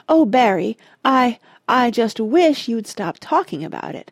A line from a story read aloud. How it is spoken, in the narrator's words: pleaded the young woman tearfully